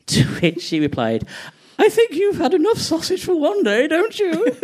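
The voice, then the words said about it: Posh Mrs. Bouquet-style accent. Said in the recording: “I just love that accent. ... Mrs. Bouquet”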